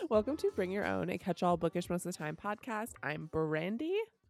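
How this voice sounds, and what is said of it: Sick, sniffly congested voice. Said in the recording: “I'm so sick. So if I am sniffly or sound horrible”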